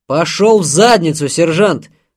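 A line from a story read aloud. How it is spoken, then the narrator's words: General barking. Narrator (Russian): рявкнул генерал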